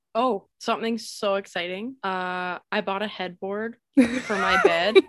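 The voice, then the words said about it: Flat deadpan delivery. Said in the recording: “the way you said that was like so deadpan. ... Yeah, that's what I was going for.”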